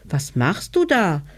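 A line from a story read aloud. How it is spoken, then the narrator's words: Calling upward. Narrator (German): rief der kleine Hebelmann hinauf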